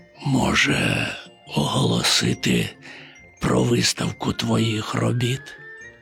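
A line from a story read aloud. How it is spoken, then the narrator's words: Near whisper. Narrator (Ukrainian): майже пошепки мовив він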